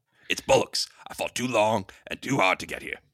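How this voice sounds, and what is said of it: Gravelly voice, bad British accent. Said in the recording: “You just make your voice gravelly. Put on a bad British accent.”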